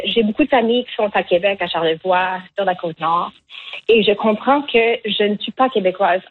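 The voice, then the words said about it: Acadian French accent. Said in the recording (French): “en tant que personne qui a été née en Acadie, moi, je ne trouve pas que mon accent est laid”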